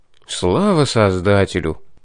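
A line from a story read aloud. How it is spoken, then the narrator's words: Relieved exhale. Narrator (Russian): облегченно выдохнул я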